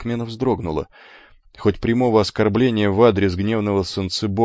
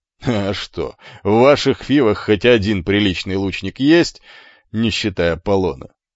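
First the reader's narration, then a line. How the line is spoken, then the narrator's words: Short laugh. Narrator (Russian): хохотнул иврит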